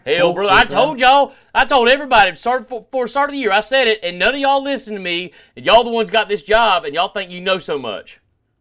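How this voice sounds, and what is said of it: Put-on Southern US accent. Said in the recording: “it's just my southern accent. I'm gonna do the rest of the podcast like this.”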